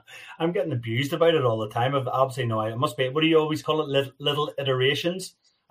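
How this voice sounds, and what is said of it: North American accent. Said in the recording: “North American accent is absolutely it's, outstanding ... you've definitely got an accent. No doubt ... you've got lots of North American dro- draw in your in your voice now”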